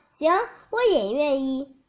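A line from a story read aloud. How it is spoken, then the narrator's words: Happy grateful voice. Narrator (Chinese): 水晶杯王子也幸福的笑了，他感激的说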